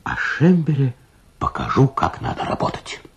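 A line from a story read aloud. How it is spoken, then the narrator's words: Whisper. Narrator (Russian): прошептал он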